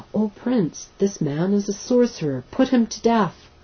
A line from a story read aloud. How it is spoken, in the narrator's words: they cried to the ruler